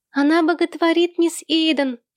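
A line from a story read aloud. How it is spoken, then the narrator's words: Shrill child's cry. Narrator (Russian): пронзительно вскрикнул малыш Сэм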